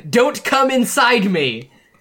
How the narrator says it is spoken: Also, Asuka shouts

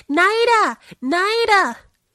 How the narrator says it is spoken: Limoges ran over the lawn shouting

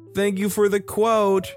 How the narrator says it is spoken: shouted back at him

